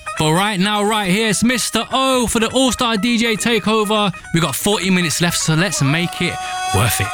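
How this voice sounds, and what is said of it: Birmingham accent. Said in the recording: “It's my Birmingham accent, isn't it?”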